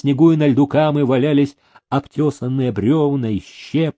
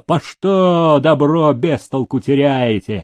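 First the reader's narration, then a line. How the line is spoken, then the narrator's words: Angry scolding shout. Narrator (Russian): кричал он на плотников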